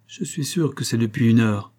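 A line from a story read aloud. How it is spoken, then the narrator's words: Murmured. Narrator (French): murmura Grimstone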